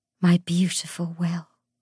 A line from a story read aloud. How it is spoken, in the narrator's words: she said, her voice husky with desire